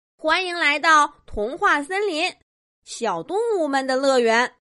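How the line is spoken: Loud small animal. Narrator (Chinese): 一只黑乎乎的小动物 大声说着

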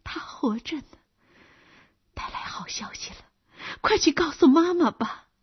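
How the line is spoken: Happy breathless whisper. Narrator (Chinese): 阿克西尼亚高兴的气喘吁吁的小声说

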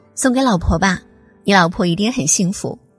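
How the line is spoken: Girl, smiling. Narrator (Chinese): 小姑娘 笑着说

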